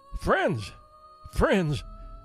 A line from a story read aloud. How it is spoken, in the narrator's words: exclaimed the dying son of genius